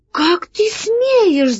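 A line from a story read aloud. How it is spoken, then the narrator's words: Shouted. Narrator (Russian): закричала Алиса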